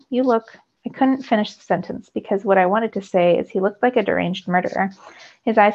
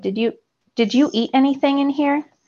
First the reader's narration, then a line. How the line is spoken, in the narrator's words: She asked Hondo, looking around frantically